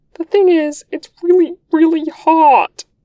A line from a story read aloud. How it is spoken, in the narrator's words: says, a little squeaky